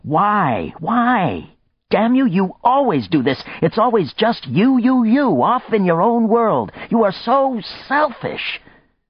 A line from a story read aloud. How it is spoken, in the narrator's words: her Simon, the quiet one, now yelling at her